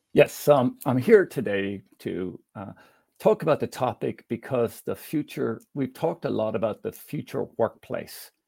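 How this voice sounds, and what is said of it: Hint of an Irish accent. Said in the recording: “the accent our audience will find has that hint of Irish”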